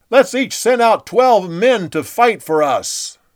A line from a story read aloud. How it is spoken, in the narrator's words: Abner yelled over to Joab